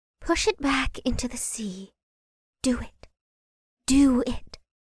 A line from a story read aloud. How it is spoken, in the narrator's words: a feminine voice whispered in his ear